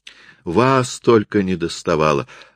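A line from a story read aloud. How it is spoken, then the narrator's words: Exclaimed. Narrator (Russian): воскликнула она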